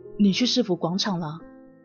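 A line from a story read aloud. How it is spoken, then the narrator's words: Low voice. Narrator (Chinese): 他低声的说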